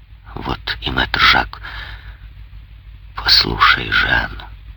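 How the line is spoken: Quiet voice. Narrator (Russian): добавил тихим голосом

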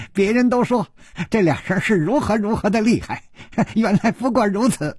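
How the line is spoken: Giggling. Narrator (Chinese): 一个人咯咯地笑着说

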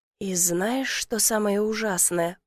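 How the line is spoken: Whispering. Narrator (Russian): продолжила шепотом

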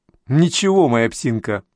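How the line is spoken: Laughing. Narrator (Russian): рассмеялась Лопатина

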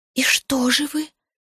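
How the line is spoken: Whispered question. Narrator (Russian): спросила Зоя шепотом

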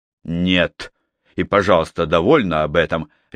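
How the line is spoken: Sharp. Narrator (Russian): резко произнес Струан

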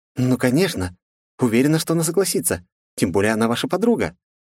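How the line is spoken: Ardent exclamation. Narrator (Russian): жаром воскликнула Марго

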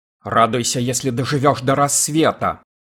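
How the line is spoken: Snapping retort. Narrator (Russian): огрызнулся Бенбек

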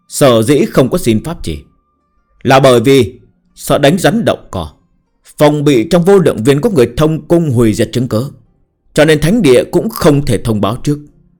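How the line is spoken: Cold, stern, unyielding. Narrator (Vietnamese): Thái độ Ngưu đạo rất cường ngạnh, ngữ khí lạnh lùng nghiêm nghị nói

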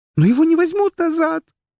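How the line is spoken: Hysterical scream. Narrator (Russian): истерически закричала

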